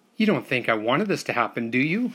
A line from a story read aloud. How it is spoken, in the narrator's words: cried